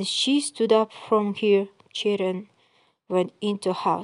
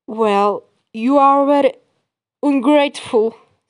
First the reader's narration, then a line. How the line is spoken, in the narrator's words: said the young student, angrily